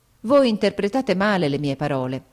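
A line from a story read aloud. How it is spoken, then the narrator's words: Exclaimed. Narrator (Italian): esclamai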